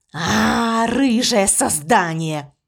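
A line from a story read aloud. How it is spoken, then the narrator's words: Snorted. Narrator (Russian): фыркнул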